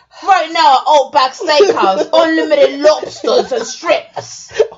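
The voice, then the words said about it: Put-on Australian accent. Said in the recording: “Why do you sound like Pete Dunne doing an Outback commercial? ... Australian accent is kind of hard to do”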